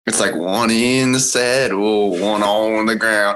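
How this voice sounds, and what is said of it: Slight country twang. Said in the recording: “Got a little twang on your voice now.”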